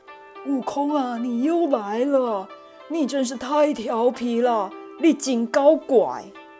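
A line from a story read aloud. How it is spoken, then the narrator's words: Exasperated sigh. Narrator (Chinese): 菩提祖师不禁摇头叹息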